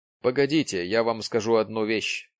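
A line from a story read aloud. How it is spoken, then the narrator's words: Plain. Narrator (Russian): ответил он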